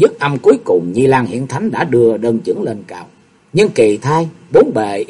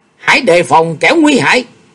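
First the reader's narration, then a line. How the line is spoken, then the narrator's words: Sudden scream. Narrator (Vietnamese): Tự nhiên trong giây phút trầm lặng đó, Nhị Lang Hiển Thánh thét lên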